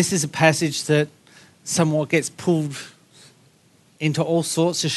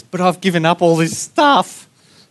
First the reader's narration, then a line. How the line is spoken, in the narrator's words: Peter cries out and says